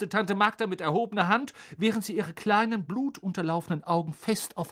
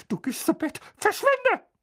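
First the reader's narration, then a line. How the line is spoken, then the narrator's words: Hissing angrily. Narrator (German): fauchte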